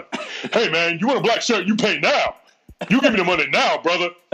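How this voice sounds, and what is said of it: Imitates another person's voice. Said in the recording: “my impression of Eddie Murphy doing an impersonation of a black guy”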